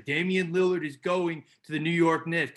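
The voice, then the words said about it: Poor impression with New York accent. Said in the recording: “That's my Stephen A. Smith impression. I know it's terrible. ... I guess he's got a New York accent”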